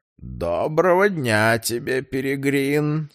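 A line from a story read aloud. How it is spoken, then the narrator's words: Creaky voice. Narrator (Russian): скрипучим голосом произнес кардинал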